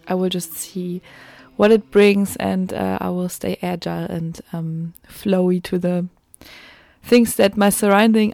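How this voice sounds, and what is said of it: German accent. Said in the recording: “you wonder why I have a German accent. I'm German”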